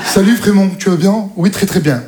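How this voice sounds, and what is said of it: Put-on Parisian French accent. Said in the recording (French): “Ils ont tous accent parisien.”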